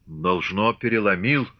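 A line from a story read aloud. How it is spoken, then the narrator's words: Deep bass voice. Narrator (Russian): пробасил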